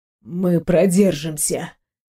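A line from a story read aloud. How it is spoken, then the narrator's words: Muffled mutter. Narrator (Russian): Глухо пробормотал он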